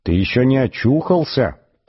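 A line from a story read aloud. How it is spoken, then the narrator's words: Firm inner voice. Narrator (Russian): продолжал он самым твердым внутренним голосом, на какой только был способен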